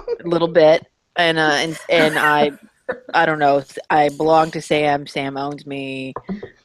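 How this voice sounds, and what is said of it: Southern American accent. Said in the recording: “makes fun of me for being Southern ... that Southern accent”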